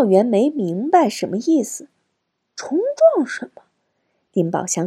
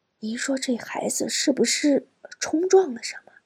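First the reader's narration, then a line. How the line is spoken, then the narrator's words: Quiet. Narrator (Chinese): 丁宝香小声说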